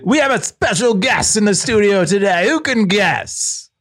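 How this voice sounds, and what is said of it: Exaggerated radio announcer voice. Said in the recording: “I can also do a radio voice.”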